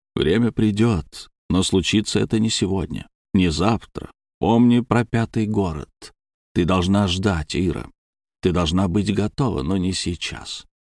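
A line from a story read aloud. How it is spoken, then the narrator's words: Quiet voice. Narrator (Russian): я тихо произнес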